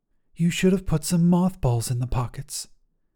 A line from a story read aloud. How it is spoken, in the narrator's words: his wife whispered derisively